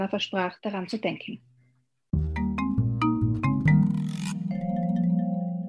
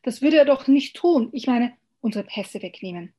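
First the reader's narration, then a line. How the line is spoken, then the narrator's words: Pleading call. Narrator (German): rief Anna flehend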